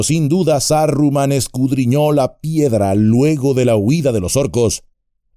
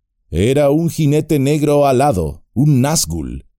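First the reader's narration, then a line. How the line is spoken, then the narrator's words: Plain. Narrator (Spanish): respondió Gandalf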